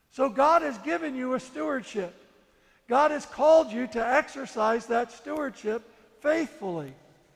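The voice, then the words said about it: Non-native, foreign accent. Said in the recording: “everybody knows from my accent that I'm not from here originally”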